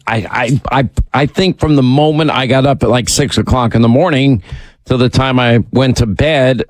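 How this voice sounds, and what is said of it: Sore, strained voice. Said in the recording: “your voice gets sore ... My voice”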